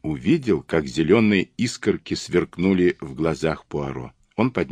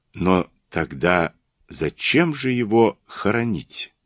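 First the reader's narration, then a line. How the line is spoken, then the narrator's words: Very gentle question. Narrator (Russian): очень мягко спросил он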